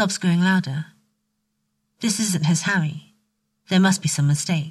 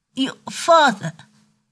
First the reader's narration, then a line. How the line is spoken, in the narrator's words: he says, his voice catching